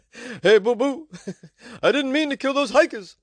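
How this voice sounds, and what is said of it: Bad Yogi Bear impression. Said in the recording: “terrible Yogi impression”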